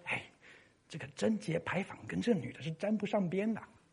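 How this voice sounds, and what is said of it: Quiet whispered gossiping voice. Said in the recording (Chinese): “小声的”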